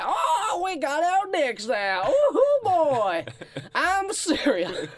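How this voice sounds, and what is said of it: Old Texas prospector voice. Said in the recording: “Why do I sound like an old Texas prospector?”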